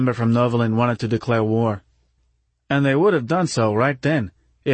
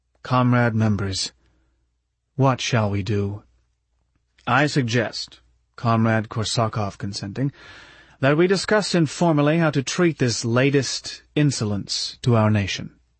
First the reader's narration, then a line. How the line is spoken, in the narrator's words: said quietly